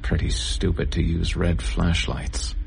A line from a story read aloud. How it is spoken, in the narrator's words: I heard him mumble